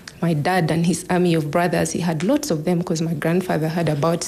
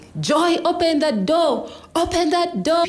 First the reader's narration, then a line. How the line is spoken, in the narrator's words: his brothers joined in, screaming